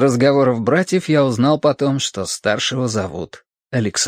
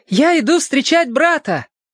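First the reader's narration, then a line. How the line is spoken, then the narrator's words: Boy shouting while running. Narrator (Russian): мальчик на бегу крикнул кому-то в ответ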